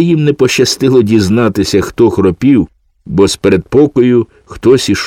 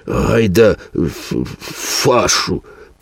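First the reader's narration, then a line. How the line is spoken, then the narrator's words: Hiss. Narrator (Ukrainian): просичав Філе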